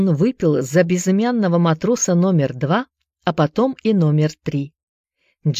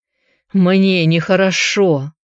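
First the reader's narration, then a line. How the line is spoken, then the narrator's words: Groaning. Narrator (Russian): простонал Джаред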